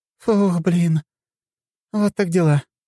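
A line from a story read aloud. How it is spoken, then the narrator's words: Exhaled sigh. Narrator (Russian): выдохнула она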